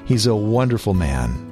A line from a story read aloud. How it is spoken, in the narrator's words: others said